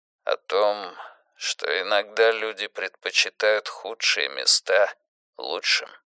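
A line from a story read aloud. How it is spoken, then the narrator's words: Barely audible. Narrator (Russian): едва слышно ответил Юрик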